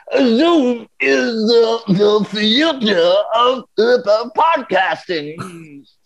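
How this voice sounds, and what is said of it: Bill Cosby impression. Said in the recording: “In a Bill Cosby voice?”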